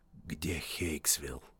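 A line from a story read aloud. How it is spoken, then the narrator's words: Whisper in the ear. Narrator (Russian): прошептал ему на ухо голос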